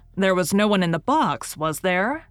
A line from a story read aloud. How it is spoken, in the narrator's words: roared Richard